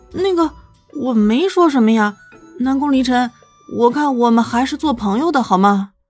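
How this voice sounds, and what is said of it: Soft, quiet timid speech. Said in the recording (Chinese): “小声的提着自己的意见”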